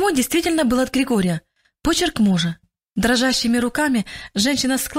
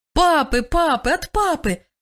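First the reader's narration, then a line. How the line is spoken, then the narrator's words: Children shouting over each other. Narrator (Russian): кричали наперебой дети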